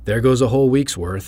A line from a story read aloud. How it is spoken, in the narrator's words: groan